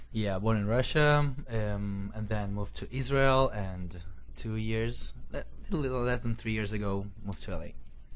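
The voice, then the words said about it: Russian accent. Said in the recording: “I love your accent. And you are originally from Russia.”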